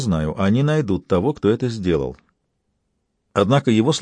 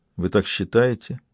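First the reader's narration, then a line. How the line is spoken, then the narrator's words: Mumbled. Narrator (Russian): пробормотал Патрик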